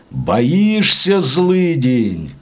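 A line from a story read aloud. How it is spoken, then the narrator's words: Coachman's high gloating shout. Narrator (Russian): возница начинал кричать тонким злорадным голосом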